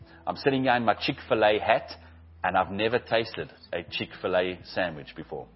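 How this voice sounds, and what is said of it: South African accent. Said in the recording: “I love that South African accent.”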